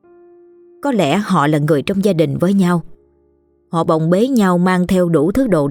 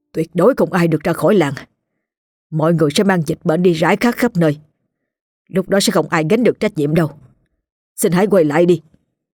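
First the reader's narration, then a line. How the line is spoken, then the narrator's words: Stern voice. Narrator (Vietnamese): Ông nghiêm giọng nói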